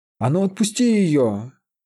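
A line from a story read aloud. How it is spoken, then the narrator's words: Yelling. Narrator (Russian): заорал спутник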